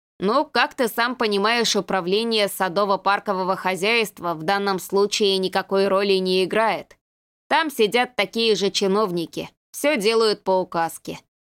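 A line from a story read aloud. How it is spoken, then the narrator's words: Plain. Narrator (Russian): ответил Рудик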